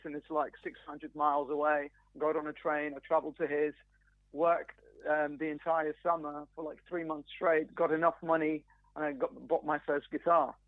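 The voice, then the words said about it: British accent. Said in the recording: “You completely lost the accent. You sound very British to me.”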